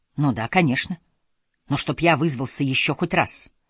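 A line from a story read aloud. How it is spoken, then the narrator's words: Muffled grumbling. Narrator (Russian): Глуховато забурчал из-под руки Фостер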